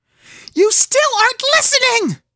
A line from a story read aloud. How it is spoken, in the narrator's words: sobbed